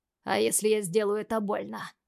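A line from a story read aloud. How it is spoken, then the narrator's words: Angry question. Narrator (Russian): зло спрашиваю я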